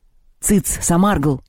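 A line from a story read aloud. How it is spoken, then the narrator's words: Barked. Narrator (Russian): гаркнул пришедший в себя Перун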